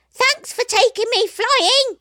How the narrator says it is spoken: called out the monkey

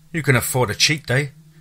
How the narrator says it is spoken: he said cheerfully

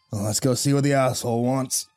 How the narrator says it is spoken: Dalton grumbled

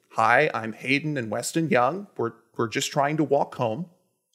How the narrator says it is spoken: the boys respond calmly

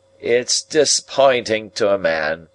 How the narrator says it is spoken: said in a coarse, broken voice

